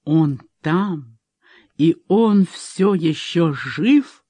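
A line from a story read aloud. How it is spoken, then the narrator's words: Hissed. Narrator (Russian): прошипел Брайан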